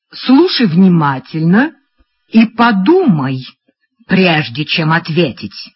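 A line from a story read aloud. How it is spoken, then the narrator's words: Plain. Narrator (Russian): сказала Фрекин Розенблюм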